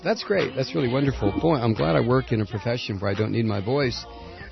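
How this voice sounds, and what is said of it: Hoarse, fading voice. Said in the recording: “Now I'm losing my voice.”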